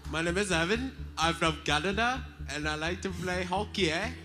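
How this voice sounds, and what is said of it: Put-on accent. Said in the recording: “That was perfect. ... I suck at accents.”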